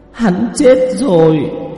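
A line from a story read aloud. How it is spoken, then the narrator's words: Low tearful weeping. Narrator (Vietnamese): Nữ quỷ, nước mắt quỷ trào ra từ trong mắt rơi xuống, thấp giọng khóc lóc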